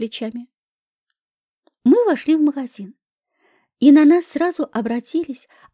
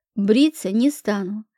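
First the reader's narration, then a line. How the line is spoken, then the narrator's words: Categorical tone. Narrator (Russian): категоричным тоном заявил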